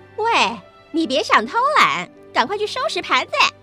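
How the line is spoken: Loud shouting. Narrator (Chinese): 其他女佣大声叫着

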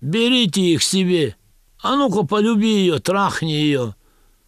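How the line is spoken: Drunken laughing shouts. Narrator (Russian): Пьяные немцы хохотали и кричали

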